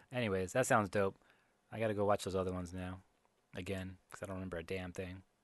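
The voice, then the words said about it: Strained, hoarse, fading voice. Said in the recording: “my throat's hurting ... I'm like losing my voice over here.”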